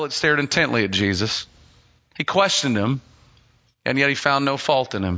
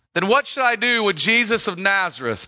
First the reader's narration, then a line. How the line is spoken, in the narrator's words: Pilate shouted to the mob